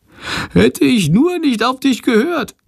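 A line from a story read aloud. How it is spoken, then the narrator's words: Whining lament. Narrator (German): jammert Chandor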